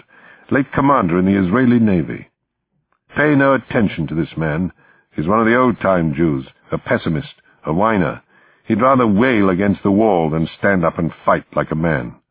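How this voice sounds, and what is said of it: Crisp Oxford English accent. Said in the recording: “he said in a crisp Oxford accent”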